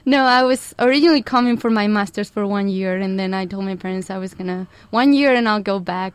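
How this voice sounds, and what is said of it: Spanish accent. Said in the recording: “I'm originally from Spain, which you might tell a little bit from the accent. ... my accent gets a little bit stronger”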